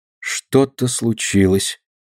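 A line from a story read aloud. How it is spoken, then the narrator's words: Dejected voice. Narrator (Russian): Упавшим голосом сказала Алина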